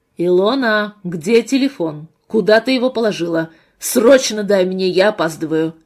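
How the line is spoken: Commanding tone. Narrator (Russian): Приказным тоном поступила команда

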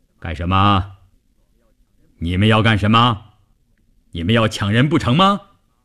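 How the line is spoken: Big man's booming, deafening voice. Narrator (Chinese): 大块头，一开口声音炸得人头皮都发麻

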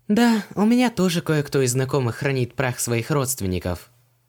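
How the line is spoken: Sentimental sigh. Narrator (Russian): сентиментально вздохнула Ванесса

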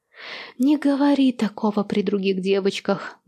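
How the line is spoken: Speaking through laughter. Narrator (Russian): говорит она сквозь смех

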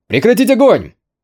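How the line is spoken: Shout. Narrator (Russian): крикнул Юэ

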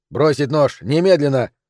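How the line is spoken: Demanding command. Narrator (Russian): скомандовал старший требовательным тоном

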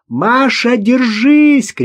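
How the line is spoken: Shout. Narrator (Russian): крикнула Ирина

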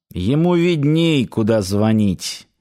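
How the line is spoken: Grumbled. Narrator (Russian): буркнул Далестианц

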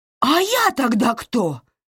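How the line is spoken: Shouted back. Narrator (Russian): крикнула Кэтрин в ответ

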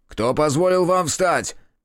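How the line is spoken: Guard barking. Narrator (Russian): рявкнул охранник

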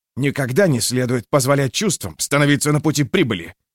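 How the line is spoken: Sharp. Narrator (Russian): резко сказал Аренгорм

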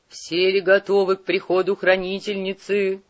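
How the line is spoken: Guttural inquiry. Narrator (Russian): гортанным голосом осведомился негр

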